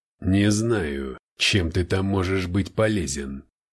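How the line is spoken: Through gritted teeth. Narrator (Russian): цедит сквозь зубы Спаркс

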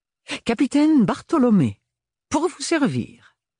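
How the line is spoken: Emphatic exclamation. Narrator (French): s'exclama-t-il avec emphase

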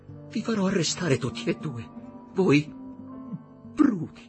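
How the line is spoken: Sobbing. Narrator (Italian): singhiozzò quell'anima perduta

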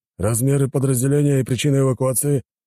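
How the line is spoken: Slightly livelier clarifying question. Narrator (Russian): Чуть более живым голосом уточнил офицер

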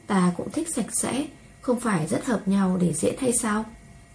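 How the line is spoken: Soft, resigned. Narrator (Vietnamese): vẻ bất đắc dĩ, khẽ nói một câu

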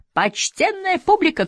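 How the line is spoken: Shout. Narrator (Russian): крикнул я

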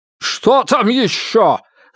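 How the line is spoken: Yelling. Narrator (Russian): завопил

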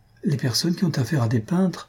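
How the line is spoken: Timid. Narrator (French): dit timidement Madame Jujube

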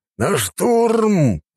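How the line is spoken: Growled over radio. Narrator (Russian): прорычал разведчик в рацию

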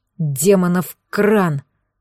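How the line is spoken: Through gritted teeth. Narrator (Russian): процедил тот сквозь зубы

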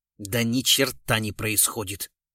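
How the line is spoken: Angry grumble. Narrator (Russian): сердито буркнул Глузский

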